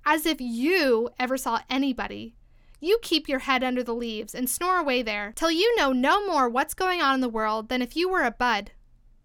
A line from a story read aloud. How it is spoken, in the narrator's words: cried the Tiger Lily